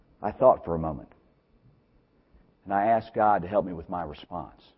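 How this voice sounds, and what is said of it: Usual voice. Nothing is said of it.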